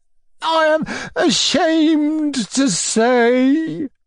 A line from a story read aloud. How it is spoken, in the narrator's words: he bellowed at last in utter despair